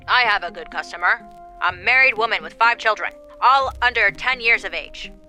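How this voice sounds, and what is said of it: Put-on old-fashioned 1800s accent. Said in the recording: “Did you like my accent? I think that's how everyone talked in the 1800s.”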